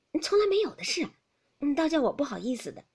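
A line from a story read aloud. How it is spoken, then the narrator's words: Laughing. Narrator (Chinese): 袭人笑道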